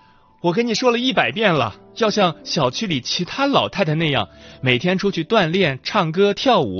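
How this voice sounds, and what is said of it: Usual voice. Nothing is said of it.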